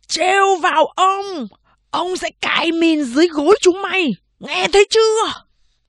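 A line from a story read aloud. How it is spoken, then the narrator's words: Distant roar from alley. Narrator (Vietnamese): Từ ngoài ngõ vọng lại tiếng gầm của Vương Mộc Căn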